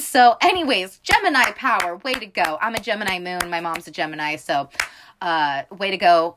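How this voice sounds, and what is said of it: Loud, yelling, abrasive voice. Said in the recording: “I feel like I've yelled this whole time, so I'm sorry if my voice is abrasive in this episode.”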